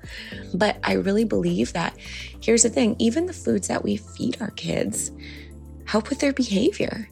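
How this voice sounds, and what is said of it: Soft, whispered speech. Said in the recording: “I'm sort of whispering because everybody in the house is sleeping still”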